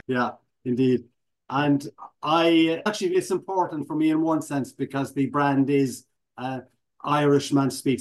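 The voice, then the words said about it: Irish accent. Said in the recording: “I assume you are from Ireland, right? ... You got it”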